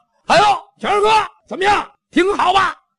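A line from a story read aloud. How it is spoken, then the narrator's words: Noisy, boisterous. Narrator (Chinese): 贾家楼这一帮吵吵嚷嚷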